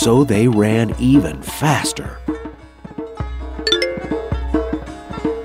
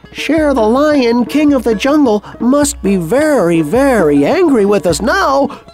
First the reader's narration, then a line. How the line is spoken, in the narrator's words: since he was by this time shouting very loudly, they all said